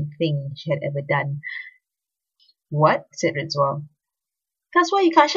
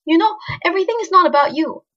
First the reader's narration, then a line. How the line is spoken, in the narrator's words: she snapped